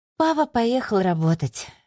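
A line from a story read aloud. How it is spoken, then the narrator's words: Sighing. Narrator (Russian): вздохнула Аделия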